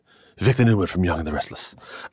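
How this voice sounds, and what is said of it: Poor imitation of a TV character. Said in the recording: “my very bad Victor Newman impression”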